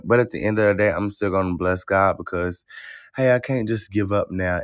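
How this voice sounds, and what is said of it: Tired, strained voice. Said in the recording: “my voice a little tired. I ain't there yet. For some reason, my voice is just not there yet.”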